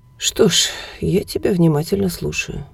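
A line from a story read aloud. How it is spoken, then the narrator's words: Sigh. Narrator (Russian): вздохнула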